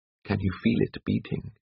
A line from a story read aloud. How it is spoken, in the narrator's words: asked Seacliff softly